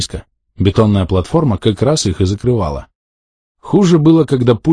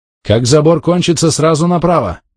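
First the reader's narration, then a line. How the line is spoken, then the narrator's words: Excited shout over engine noise. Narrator (Russian): крикнул я, стараясь переорать дизель, да и вообще от возбуждения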